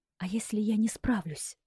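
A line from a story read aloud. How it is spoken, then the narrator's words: Whispered. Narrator (Russian): прошептала я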